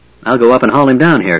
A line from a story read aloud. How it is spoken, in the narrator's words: Caramon said